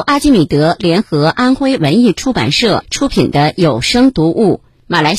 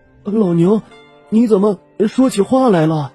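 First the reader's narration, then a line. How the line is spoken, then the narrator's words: Startled, trembling question. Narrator (Chinese): 牛郎吓了一跳，颤声问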